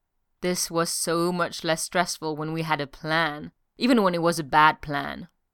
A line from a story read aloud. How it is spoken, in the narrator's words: Steve groaned